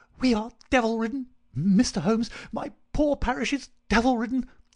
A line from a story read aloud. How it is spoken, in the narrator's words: he cried